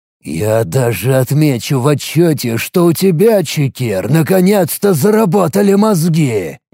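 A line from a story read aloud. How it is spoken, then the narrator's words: Loud hiss. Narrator (Russian): громко прошипел я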